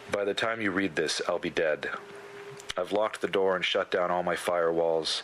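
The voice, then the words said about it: Robotic voice. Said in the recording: “Picture this in a robot voice.”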